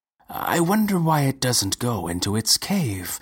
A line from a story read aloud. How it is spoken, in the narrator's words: remarked Professor Injirami, calmly